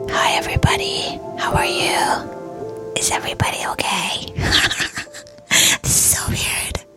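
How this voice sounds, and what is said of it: Whispering close to the microphone. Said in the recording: “I'm actually whispering into the microphone because this episode is gonna be in ASMR style.”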